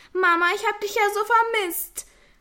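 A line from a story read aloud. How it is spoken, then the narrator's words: Call out. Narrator (German): rief Nina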